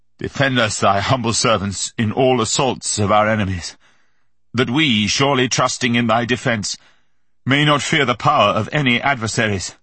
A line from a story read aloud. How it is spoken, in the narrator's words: He stammered out